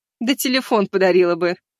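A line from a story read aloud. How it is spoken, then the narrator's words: Laughing witch. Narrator (Russian): рассмеялась ведьма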